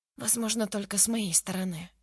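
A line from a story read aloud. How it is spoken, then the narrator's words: Female whisper. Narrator (Russian): прошептала Лу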